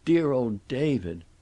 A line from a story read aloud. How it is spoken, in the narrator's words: was suddenly shaken with dry, terrible sobbing